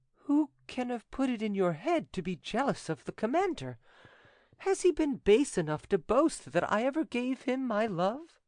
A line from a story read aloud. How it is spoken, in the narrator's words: Mademoiselle de Guerchy, who was desirous of being prepared for every peril, asked him in a coaxing tone